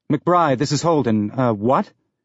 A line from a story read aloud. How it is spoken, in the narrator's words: Her reply was in a clipped tone that was not encouraging